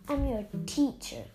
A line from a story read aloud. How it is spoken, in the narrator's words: Kestrel snarled